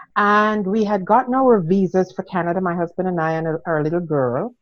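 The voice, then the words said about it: Jamaican accent. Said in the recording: “I'm originally from Jamaica. ... the accent was not Canadian.”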